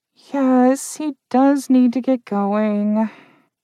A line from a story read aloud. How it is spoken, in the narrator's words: Trish said in a muffled voice